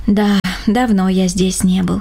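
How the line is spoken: Sighed. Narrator (Russian): вздохнул Рома

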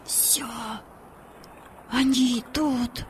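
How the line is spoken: Breathless exhale. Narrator (Russian): выдохнул Владик

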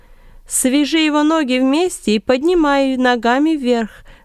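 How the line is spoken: Loud commanding. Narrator (Russian): громко указывал Варнава

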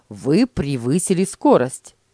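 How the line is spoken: Angry statement. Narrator (Russian): сердито заявил он

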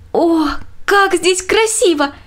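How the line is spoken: Exclaiming. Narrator (Russian): воскликнула Мина

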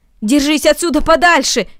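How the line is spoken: Shouting. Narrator (Russian): крикнул Ноэль

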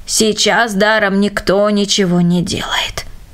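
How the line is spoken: Old man, thoughtful. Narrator (Russian): Старик задумчиво произнес

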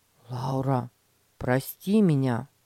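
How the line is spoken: Sigh, sincere. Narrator (Russian): Петя вздохнул и искренне сказал

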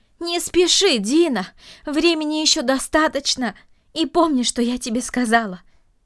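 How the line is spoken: Calling after someone. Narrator (Russian): крикнула она ему вслед

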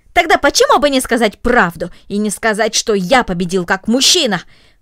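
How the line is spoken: Angry, disappointed exclamation. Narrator (Russian): воскликнул рассерженный, разочарованный Гренби

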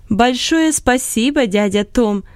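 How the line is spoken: Loud laughing. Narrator (Russian): смеясь громко, сказала Лотти Вудс

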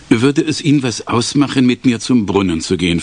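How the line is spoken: Plain question. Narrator (German): fragte

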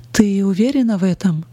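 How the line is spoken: Plain. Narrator (Russian): спросил он

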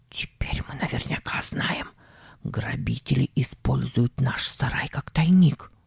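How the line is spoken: Whisper. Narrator (Russian): Он сказал шепотом

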